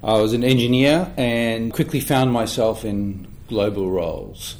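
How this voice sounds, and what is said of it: Australian English accent. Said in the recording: “you can tell from the accent or not, I started in Australia, Melbourne, Australia.”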